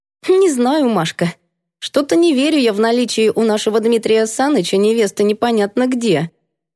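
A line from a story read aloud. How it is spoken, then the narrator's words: Skeptical snort. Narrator (Russian): скептически хмыкнула Валечка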